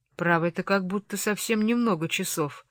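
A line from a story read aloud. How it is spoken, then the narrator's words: Incredulous female mutter. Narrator (Russian): пробормотала она с недоверием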